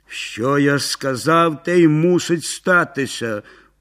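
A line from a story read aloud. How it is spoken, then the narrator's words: Grumbled. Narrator (Ukrainian): буркнув Яцусь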